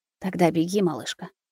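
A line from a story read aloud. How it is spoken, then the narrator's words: Muttered. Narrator (Russian): пробормотал Рустам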